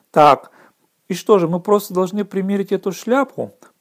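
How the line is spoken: Whisper. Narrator (Russian): прошептал Рон Харри

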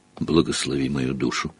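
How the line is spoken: Old man's whisper. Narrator (Russian): прошептал старый бармен

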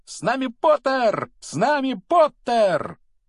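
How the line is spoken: Loud excited yelling. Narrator (Russian): А близнецы Фред и Джордж в это время вопили во весь голос

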